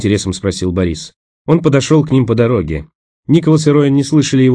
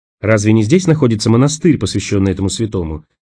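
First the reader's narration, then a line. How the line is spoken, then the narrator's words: Calm question. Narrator (Russian): столь же спокойно спросила Роэн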